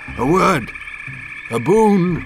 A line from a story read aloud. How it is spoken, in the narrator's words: Pondlarca cried